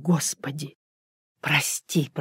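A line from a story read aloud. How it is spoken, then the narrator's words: Whisper. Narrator (Russian): прошептал он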